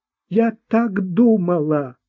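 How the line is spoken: Sobbing. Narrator (Russian): всхлипнула Марта

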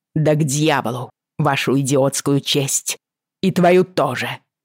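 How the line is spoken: Angry growl. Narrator (Russian): прорычала я

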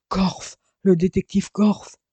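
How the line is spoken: Exclaimed. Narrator (French): s'écria Argouliant

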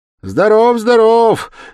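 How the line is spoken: Cheerful shout. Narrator (Russian): весело крикнул навстречу входящим Зосимов

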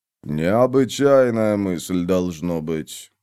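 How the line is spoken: Mutter. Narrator (Russian): пробормотал он

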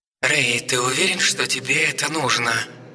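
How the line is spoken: Deliberately audible, meant to be overheard. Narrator (Russian): произнес не слишком тихо, так, чтобы настырный собасец услышал

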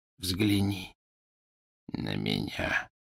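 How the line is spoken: Whisper. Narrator (Russian): прошептал он

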